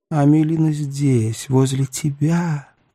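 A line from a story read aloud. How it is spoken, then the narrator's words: Agitated whisper in ear. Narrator (Russian): прошептал ему на ухо взволнованный голос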